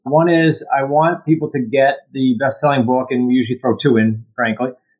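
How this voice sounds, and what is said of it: New England accent. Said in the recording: “my New England accent”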